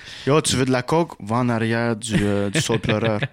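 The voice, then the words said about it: Put-on Polish accent. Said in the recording (French): “tu aurais changé d'accent, là ... c'est mon accent polonais”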